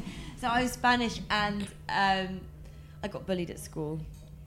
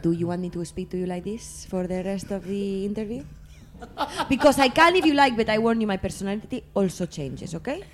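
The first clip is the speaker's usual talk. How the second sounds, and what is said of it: Put-on Spanish English accent. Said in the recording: “put on a Spanish English accent”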